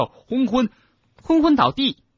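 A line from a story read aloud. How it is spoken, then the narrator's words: Shouting at top voice. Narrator (Chinese): 赫敏扯着嗓子高喊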